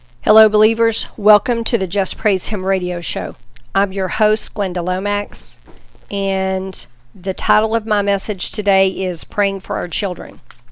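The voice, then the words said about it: Voice a little off, sick. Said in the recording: “my voice is a little bit off. I'm trying to get through an upper respiratory infection”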